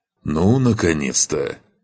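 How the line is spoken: Grumbling. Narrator (Russian): проворчал павший

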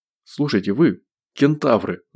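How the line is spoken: Pleading. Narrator (Russian): взмолился Гош

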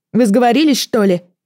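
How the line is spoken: Shouted after someone. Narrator (Russian): крикнула я ему вдогонку

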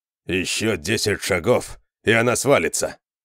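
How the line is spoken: Grumbling. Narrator (Russian): проворчал Конан

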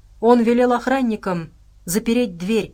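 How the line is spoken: Shouted out. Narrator (Russian): выкрикнула она наконец

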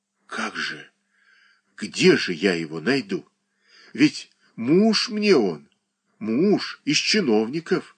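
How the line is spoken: Senseless female whisper. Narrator (Russian): шептала она бессмысленно

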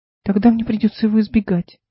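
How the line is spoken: Sad young woman. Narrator (Russian): грустно сообщила девушка

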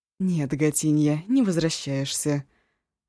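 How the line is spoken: Gentle female objection. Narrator (Russian): ласково возразила Шосси

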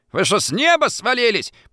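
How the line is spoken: Sharp shout. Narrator (Russian): прикрикнула

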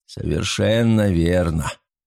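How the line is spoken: Dry repetition. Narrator (Russian): сухо повторил Фарнхолм

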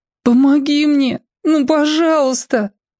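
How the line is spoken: Tearful, desperate. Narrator (Russian): сквозь слезы и отчаяние

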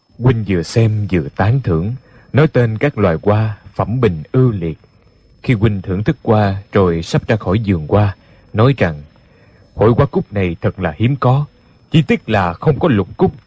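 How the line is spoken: Gentle, faintly smiling. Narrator (Vietnamese): khóe miệng Đinh Điển hơi mỉm cười, thần sắc rất dịu dàng, nhẹ nhàng nói

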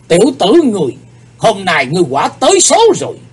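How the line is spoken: Angry. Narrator (Vietnamese): Âm ma giáo chủ giận dữ nói

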